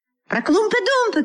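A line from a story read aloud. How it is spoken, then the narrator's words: Shouting crowd. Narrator (Russian): кричали другие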